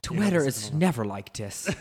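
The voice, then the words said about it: Poor put-on Irish accent. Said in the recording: “our Irish accent is so terrible”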